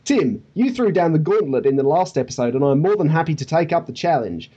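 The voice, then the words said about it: Put-on Australian accent. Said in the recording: “You started with g'day, therefore you get the accent... I'm going to drop the accent now. It's impairing my comic timing”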